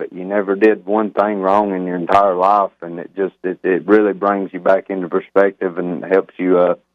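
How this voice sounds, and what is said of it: Alabama accent. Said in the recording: “with a voice like that, where did you grow up? What accent is that? ... in that tone ... I'm actually from a little bitty tiny town in the northeastern corner of Alabama”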